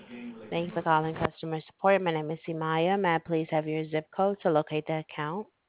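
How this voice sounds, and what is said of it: Very thick foreign accent. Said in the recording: “You have a very, very thick accent. It's difficult to hear you.”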